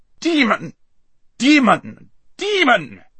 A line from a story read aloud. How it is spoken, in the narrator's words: shrieked the prince